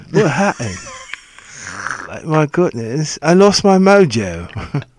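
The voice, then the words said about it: Put-on British accent. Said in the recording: “Always a British accent. ... you can't lose your mojo with an English accent.”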